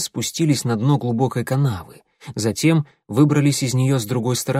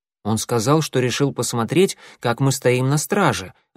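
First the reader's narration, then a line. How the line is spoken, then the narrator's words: Plain. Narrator (Russian): ответил Клубок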